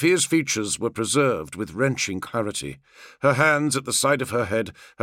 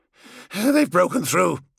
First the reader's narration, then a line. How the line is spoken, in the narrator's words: panted